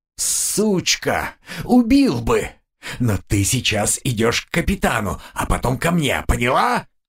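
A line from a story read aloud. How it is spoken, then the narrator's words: Hissing. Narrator (Russian): прошипел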